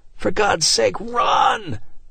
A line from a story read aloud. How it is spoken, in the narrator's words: Martin screamed at them